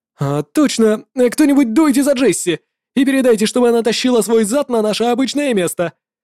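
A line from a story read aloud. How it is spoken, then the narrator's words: Shouted. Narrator (Russian): крикнула коротышка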